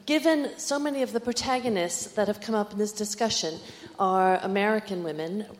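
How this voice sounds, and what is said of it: North American accent. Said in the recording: “this is an North American accent”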